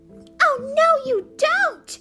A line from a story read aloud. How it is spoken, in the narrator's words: Sister shouted back